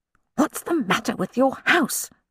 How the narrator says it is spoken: she said tightly to her mother

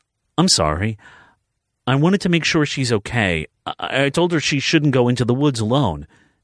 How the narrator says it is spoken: Malachi stammered

